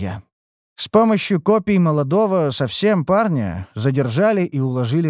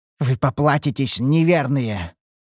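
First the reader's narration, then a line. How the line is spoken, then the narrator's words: Growled. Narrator (Russian): рыкнул темный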